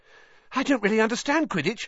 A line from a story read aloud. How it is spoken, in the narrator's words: said Colin, breathlessly